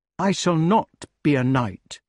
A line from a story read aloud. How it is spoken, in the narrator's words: replied the wart coldly